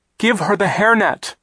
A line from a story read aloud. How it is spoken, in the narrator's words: Klaus cried